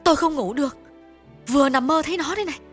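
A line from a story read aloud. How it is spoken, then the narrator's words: Irritated, louder. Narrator (Vietnamese): Bà Cần bực bội tiếp bằng giọng lớn hơn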